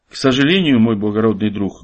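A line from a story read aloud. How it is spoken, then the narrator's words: Sad old man. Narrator (Russian): грустно ответил герою старец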